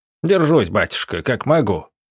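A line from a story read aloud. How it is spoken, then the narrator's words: Old man grumbling. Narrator (Russian): пробурчал старик в ответ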